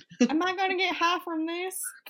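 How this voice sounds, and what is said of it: Put-on country accent. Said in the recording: “I don't know why you had a country accent... I was mimicking you being in Texas.”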